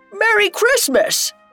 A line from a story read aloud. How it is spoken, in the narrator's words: a shout of